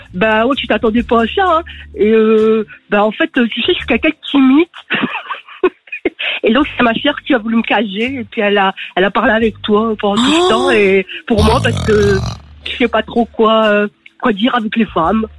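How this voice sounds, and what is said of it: Imitated northern French accent. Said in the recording (French): “L'imitation est folle, hein. ... elle a l'accent du Nord ... C'est une imitation, ouais. J'espère ne pas avoir trop l'accent du Nord, surtout dans le mode cliché.”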